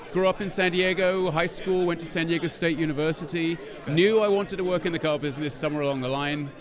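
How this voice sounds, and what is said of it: London English accent. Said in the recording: “I'm the one with a funny accent ... Originally from London, England ... with an accent like this”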